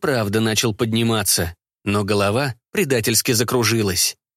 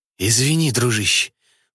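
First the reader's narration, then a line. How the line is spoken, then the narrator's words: Hoarse rasp. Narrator (Russian): Прохрипел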